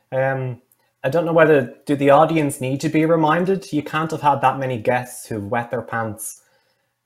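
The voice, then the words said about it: Irish accent. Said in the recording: “it sounds very Irish ... it definitely does sound very, very Irish”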